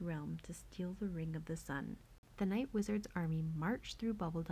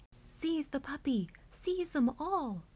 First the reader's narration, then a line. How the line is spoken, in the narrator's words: cried the lobster general